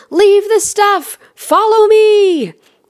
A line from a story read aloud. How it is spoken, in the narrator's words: I'm yelling at my family